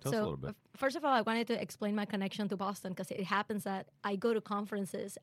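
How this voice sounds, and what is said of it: Venezuelan Spanish accent in English. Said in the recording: “originally from Venezuela ... I have to explain the accent ... the accent is not going anywhere”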